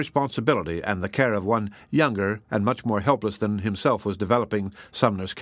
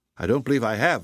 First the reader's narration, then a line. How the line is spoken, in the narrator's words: replied Worth, anxiously